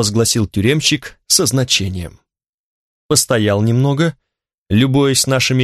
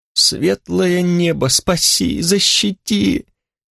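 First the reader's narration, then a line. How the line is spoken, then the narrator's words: Moaning thief. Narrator (Russian): застонал в темноте воришка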